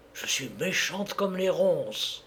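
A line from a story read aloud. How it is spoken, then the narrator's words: Very quiet. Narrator (French): Et elle lui dit tout bas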